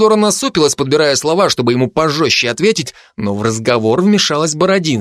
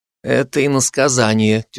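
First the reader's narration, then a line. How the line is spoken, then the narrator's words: Heavy sigh. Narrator (Russian): тяжело вздохнула Исидора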